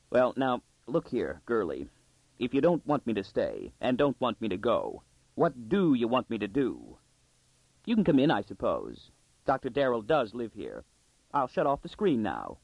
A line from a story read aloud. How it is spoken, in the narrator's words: tightly, he said